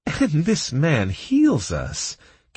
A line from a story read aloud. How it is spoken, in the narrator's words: Kira sighed, struggling not to laugh